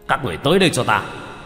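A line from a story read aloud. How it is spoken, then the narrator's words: Commanding shout. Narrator (Vietnamese): thủ lĩnh âm binh quát lên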